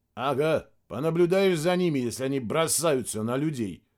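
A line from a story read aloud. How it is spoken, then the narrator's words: Grumbling. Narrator (Russian): проворчал Мирадзе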